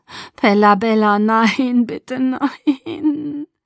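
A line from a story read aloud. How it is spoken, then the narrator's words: Breaking voice, sobbing. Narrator (German): Seine Stimme brach, und der Engel schluchzte lautlos ohne Tränen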